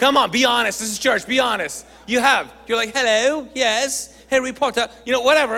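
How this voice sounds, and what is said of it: Usual voice. Nothing is said of it.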